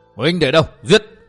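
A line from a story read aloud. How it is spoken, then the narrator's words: Loud shout. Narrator (Vietnamese): Miêu Như Đồng quát lớn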